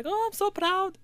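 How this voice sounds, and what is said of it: Put-on accent imitating another person. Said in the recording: “That's a real accent, by the way. I didn't just make that up.”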